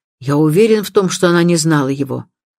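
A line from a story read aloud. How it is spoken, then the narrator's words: Sharp tone. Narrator (Russian): уже резким тоном майор добавил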